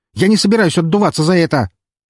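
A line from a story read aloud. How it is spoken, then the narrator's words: Near-hysterical shout. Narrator (Russian): чуть ли не в истерике выкрикнул он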